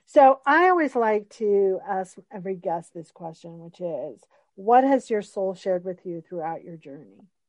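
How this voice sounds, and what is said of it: Tired, strained voice. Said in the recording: “I've been talking all day, so my voice is starting to go”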